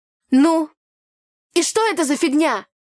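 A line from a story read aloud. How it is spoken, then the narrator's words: Loud shout. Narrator (Russian): Громко выкрикнула я на весь берег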